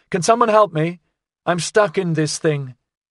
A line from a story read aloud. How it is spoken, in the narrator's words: she called out